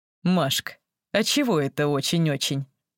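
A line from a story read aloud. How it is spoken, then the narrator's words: Mocking question. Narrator (Russian): насмешливо спросил Сергей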